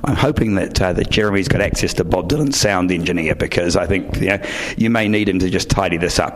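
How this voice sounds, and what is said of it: Hoarse, worn-out voice. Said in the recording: “my voice is completely shot from doing too many of these events”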